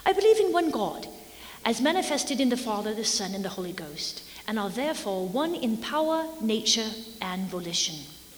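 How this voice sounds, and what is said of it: Put-on Irish accent. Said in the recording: “he's Irish. So whenever you hear that accent, it's Alexander Campbell. ... Oh, I'm sorry, Irish accent.”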